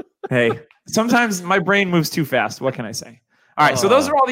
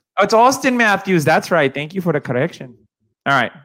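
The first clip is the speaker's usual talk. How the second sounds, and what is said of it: Weird put-on Mexican accent. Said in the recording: “You hit like a weird Mexican accent there at the end.”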